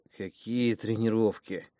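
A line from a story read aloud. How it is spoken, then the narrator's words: Groaning. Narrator (Russian): простонал я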